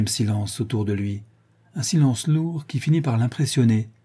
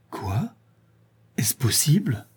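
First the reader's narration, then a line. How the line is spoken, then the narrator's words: Stammering. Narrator (French): bégaya-t-il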